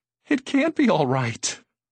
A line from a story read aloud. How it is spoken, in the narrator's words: Susan cried miserably